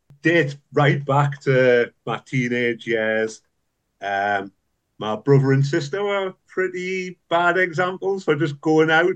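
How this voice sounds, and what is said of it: Northeast English accent. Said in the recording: “you come from the Northeast, judging by your accent”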